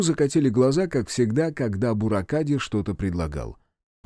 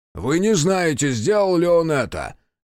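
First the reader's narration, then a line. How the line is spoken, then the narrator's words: Barked. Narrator (Russian): рявкнула Яшики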